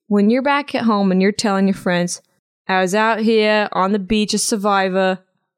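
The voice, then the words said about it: Poor Boston accent, sounds British. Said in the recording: “That's not a Boston accent. That was a little British. ... It was not a great accent.”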